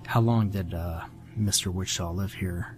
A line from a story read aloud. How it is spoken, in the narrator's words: Hartman whispered toward me